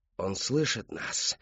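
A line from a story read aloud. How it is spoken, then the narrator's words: Many whispering voices. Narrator (Russian): шептали голоса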